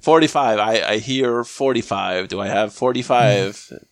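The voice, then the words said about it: Auctioneer voice impression. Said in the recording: “that was my auctioneer impression ... You nailed it.”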